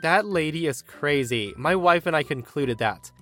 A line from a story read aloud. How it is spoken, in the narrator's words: I laugh and say